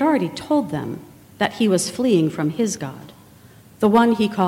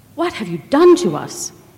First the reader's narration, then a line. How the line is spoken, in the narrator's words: they all cried out